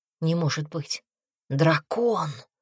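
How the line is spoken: Breathless, awed and terrified. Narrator (Russian): выдохнула она, испытывая одновременно ужас и благоговейный трепет

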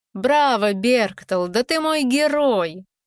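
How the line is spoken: Joyful girlish laughter. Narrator (Russian): Шейлин Златовласка вся сияла, когда словно маленькая девочка рассмеялась

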